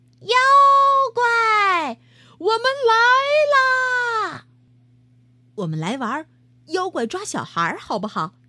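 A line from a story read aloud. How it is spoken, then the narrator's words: Suggesting. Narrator (Chinese): 野狐提议道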